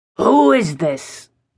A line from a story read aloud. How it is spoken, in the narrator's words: rasped